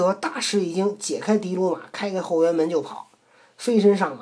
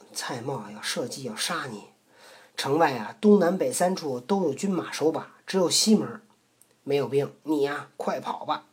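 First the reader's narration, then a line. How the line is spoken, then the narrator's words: Low voice. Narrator (Chinese): 低声说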